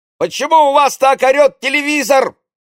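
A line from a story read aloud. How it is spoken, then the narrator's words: Indignant shout. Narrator (Russian): возмущенно крикнул он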